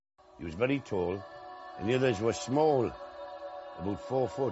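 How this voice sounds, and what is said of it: West Country English accent. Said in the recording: “Is this like a West Country accent? ... You're going to have to put on like subtitles for people that have never heard this kind of chat before.”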